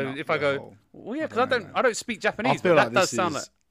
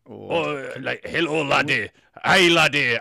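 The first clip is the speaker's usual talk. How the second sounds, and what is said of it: Put-on Scottish accent. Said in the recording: “I'm from Scotland ... that's just an accent ... It's an accent.”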